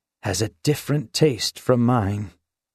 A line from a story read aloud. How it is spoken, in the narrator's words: he had groaned